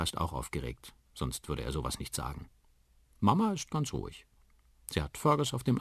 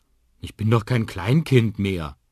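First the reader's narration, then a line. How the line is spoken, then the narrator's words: Called out. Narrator (German): ruft Liam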